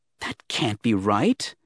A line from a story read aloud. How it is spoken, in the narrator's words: the young Jedi muttered